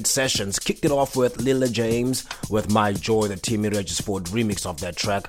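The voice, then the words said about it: Slightly sick, throaty voice. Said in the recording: “I don't know if you can hear in my voice, I'm coming up with a little bit of flu... as I speak, my throat is getting irritated”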